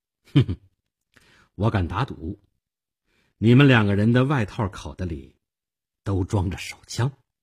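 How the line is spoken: Faint smile. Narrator (Chinese): 我淡淡的一笑

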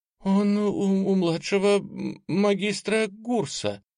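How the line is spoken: Young woman's faltering babble. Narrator (Russian): пролепетала юная водница второго ранга

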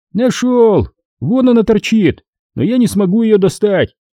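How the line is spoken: Shouting. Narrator (Russian): крикнул Хасан

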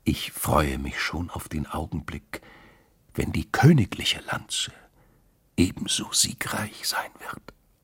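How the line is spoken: Whispered in ear. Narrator (German): flüsterte der Königin ins Ohr

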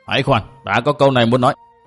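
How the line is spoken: Loud shout. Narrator (Vietnamese): Mụ quát lớn

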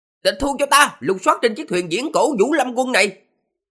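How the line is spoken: Young general's shout. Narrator (Vietnamese): Tướng quân thiếu niên kia kêu lên

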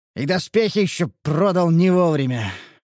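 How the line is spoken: Sighing. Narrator (Russian): вздохнул мрадиш

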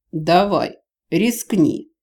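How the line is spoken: Eager, daring snort. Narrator (Russian): азартно фыркнул Джевидж

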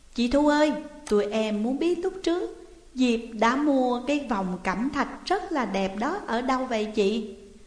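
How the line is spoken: Smiling question. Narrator (Vietnamese): mỉm cười và hỏi

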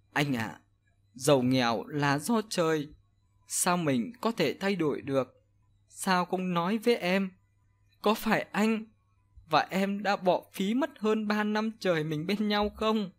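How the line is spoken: Choked, tearful voice. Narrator (Vietnamese): Hân chỉ khóc nhiều hơn, mà nói nghẹn ngào

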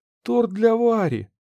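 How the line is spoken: Exclaiming. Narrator (Russian): воскликнула она

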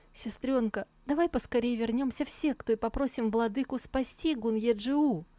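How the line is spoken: Desperate pleading. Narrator (Russian): не выдержала и взмолилась

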